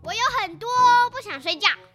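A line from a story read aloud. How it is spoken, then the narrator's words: Shouting. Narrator (Chinese): 霹雳鼠大叫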